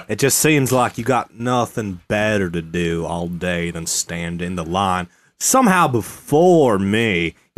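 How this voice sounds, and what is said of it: Put-on southern drawl accent. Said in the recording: “We do a little bit of a southern drawl.”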